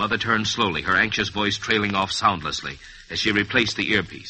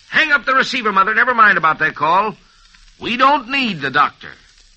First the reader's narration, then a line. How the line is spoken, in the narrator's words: his father leaped up with the galosh in his hand and called out